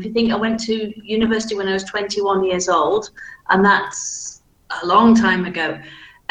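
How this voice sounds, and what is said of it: Softened Manchester accent, flat vowels. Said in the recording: “my accent is very standardized, but you can still tell that it's from Manchester, though, because my vowel sounds, for example, are flat ... I have softened out my accent considerably”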